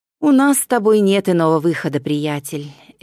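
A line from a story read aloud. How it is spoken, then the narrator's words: Heavy sigh. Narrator (Russian): Эвхенор тяжело вздохнул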